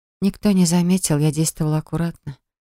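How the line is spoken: Quiet. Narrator (Russian): тихо проговорила я

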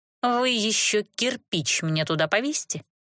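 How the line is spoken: Snide advice. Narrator (Russian): ехидно посоветовала я

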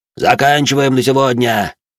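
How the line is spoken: Shout. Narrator (Russian): крикнул он им

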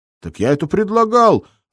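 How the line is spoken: Offended shout. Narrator (Russian): обиженно выкрикнул Гнедин

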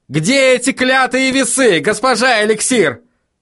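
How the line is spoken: Desperate yell. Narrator (Russian): В отчаянии заорал Вильям

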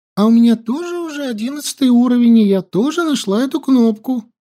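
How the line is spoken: Joyful. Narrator (Russian): радостно сказала Ютян

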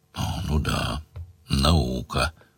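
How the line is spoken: Grumbling man. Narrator (Russian): проворчал Сварог

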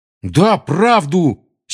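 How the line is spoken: Angry exclamation. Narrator (Russian): сердито воскликнул Рон

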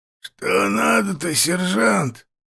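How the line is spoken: Creaky, hoarse voice. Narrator (Russian): проскрипел он каким-то простуженным с хрипотцой голосом

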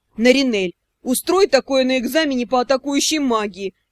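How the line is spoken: Advising through laughter. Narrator (Russian): посоветовал сквозь смех Шао

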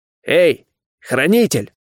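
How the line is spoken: Loud growl. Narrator (Russian): громко рыкнул я

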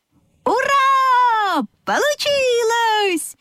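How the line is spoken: Animals shouting in chorus. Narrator (Russian): хором закричали лошадка, овечка и козлята

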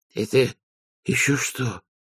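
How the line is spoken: Wheezing. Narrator (Russian): прохрипел Веренс

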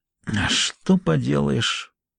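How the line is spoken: Muttering to himself. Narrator (Russian): пробормотал он, словно самому себе

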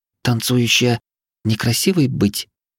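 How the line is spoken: Quiet shy question, girl. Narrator (Russian): тихо спросила девушка, не поднимая глаз

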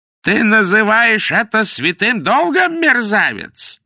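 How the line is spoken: Yelling. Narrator (Russian): заорал судья

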